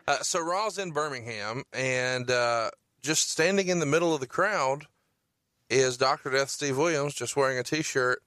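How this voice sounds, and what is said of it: Alabama Southern accent. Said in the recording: “I'm from Huntsville, Alabama ... can you tell from my accent, bro?”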